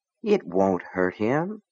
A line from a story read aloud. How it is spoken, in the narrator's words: Gaunt said softly